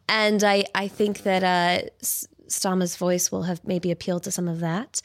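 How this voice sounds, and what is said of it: American accent with British influence. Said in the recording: “my voice is not a perfect American accent anymore because it's been heavily changed by my time in the UK”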